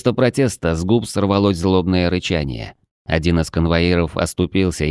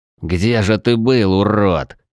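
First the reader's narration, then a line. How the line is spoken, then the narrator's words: Through clenched teeth. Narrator (Russian): Сквозь зубы процедил я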